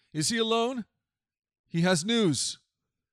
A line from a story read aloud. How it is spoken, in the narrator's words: the king replied